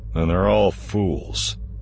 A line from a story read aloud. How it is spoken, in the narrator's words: Han growled